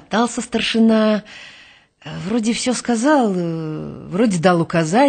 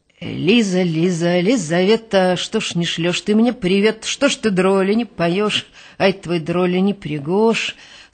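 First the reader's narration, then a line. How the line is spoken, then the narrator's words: Rattled off, official monotone. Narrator (Russian): Сходу казенным голосом отбарабанил комендант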